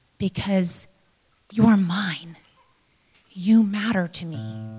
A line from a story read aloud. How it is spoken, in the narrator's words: The woodcarver leaned over and held Punchinello gently by the shoulders and looked at him and said